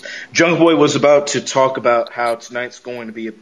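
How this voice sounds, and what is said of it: Usual voice. Nothing is said of it.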